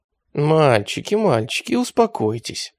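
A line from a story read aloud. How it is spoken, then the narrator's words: Cooing. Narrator (Russian): проворковал атаман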